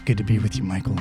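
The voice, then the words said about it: Clint Eastwood impression. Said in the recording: “you're doing an Eastwood impression”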